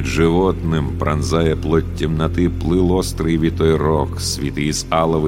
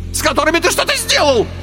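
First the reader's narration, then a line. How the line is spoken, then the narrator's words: Shrill squeal. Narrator (Russian): взвизгнул Карбулон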